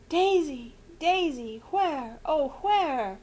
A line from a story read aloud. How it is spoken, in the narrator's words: moaned Aunt Celia wildly